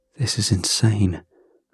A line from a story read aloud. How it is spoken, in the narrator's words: I said under my breath